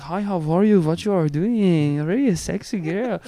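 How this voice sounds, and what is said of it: Put-on Persian-style accented voice. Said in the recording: “I did a voice. ... I'm not Persian. ... that voice you did, I played poker with a guy who sounded like that”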